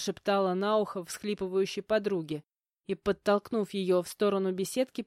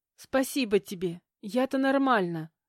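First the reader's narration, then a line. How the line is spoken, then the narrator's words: Sighing reply. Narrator (Russian): вздохнув, отозвалась Ксюша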